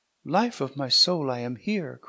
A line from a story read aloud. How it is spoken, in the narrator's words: cried Hippolyta